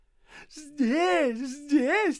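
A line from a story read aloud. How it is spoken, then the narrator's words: Widow repeating joyfully. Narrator (Russian): твердила вдова радостно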